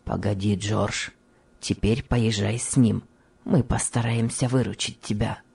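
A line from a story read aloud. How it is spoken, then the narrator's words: Low undertone. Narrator (Russian): добрый фабрикант проговорил вполголоса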